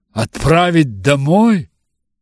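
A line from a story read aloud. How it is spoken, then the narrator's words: Exclamation. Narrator (Russian): воскликнул Бингли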